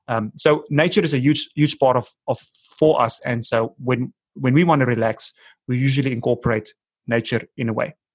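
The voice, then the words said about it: Speaks with a noticeable accent. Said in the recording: “I don't know if people are going to understand the accent”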